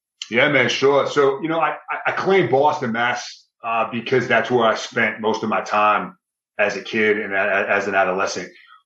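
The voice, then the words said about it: Thick Boston accent. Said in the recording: “big, strong, thick uh, Boston accent”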